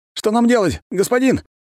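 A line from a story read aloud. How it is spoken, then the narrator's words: Emotional shout. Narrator (Russian): крикнул оператор, потеряв контроль над эмоциями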